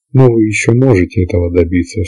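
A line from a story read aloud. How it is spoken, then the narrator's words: Sighing. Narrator (Russian): сказал он и вздохнул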